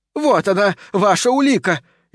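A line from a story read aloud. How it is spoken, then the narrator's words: Woman shouting. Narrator (Russian): еще раз прокричала женщина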